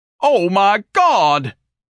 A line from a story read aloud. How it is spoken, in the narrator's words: Ignatius bellowed, unable to remain silent any longer